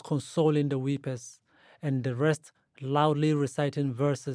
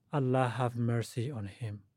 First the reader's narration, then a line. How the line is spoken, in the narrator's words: repeated quietly